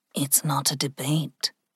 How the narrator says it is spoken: Ling said softly

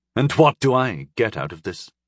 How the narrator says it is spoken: she asked sullenly

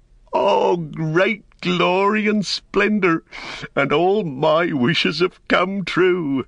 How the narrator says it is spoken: Sam heard that, he laughed aloud for sheer delight, and he stood up and cried

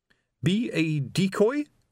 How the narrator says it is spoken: quavered Colon

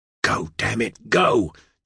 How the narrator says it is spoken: John hissed

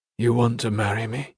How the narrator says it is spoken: he murmured

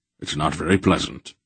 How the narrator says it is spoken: Wolf said grimly

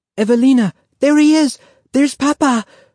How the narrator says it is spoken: Renata cried

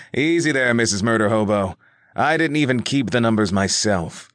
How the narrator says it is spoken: Reggie replied with a chuckle at the tense situation

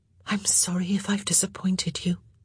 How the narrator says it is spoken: Eloise whispered

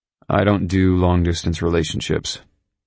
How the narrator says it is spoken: I said in a curt tone

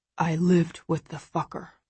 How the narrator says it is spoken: he whispers

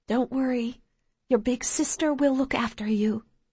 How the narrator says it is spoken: she whispers quietly into my hair

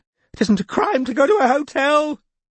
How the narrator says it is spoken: said Kinvara hysterically

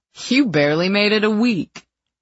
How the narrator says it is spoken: he scoffed

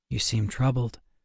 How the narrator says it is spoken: Lupo said softly

